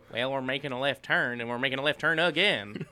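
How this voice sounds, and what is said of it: Put-on Southern American accent. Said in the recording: “could do a much better Southern accent than me ... Let him do it.”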